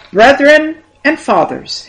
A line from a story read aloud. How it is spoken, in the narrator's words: he cried in the language of the people